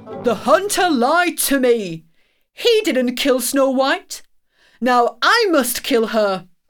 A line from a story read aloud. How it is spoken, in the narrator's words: cried angrily